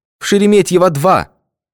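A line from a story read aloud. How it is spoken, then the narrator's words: Desperate, proud shout. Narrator (Russian): отчаянно и гордо крикнула жена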